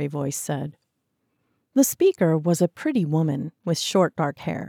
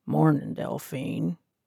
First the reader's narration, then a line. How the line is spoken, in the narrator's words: he said in a deep voice